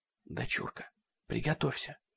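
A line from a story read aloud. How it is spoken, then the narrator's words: Whisper. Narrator (Russian): шепнула она Сэнди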